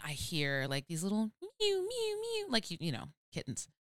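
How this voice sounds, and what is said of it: Imitates a cat's mewing. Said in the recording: “That was my impression of a cat. ... That was a great impression.”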